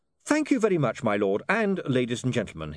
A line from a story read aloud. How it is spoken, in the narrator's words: he said cheerfully